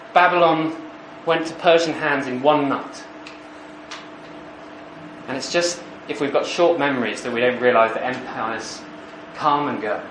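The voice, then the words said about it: Posh accent. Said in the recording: “people with my accent were ruling the world. ... people with my accent get mocked for being posh.”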